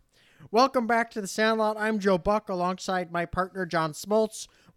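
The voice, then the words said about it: Imitates a sports announcer's voice. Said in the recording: “my Joe Buck impersonation ... It's probably horrible. I've never even attempted it before.”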